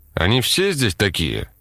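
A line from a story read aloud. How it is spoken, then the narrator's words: Plain. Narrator (Russian): спросил Лебедев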